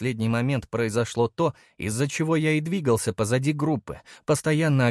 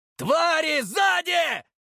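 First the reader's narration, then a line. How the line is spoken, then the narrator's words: Loud shout to all. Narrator (Russian): уже для всех закричал я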